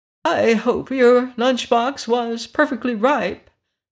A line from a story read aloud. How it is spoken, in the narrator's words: observed the yellow hen in an anxious tone